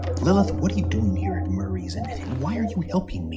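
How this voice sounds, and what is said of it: Whispering. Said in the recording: “Why do you whisper? ... Because I don't want Murray to understand.”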